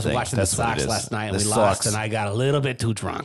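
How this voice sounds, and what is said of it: Exaggerated Boston accent. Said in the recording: “that was a terrible Boston accent too... by my Tennessee standards. It was pretty good.”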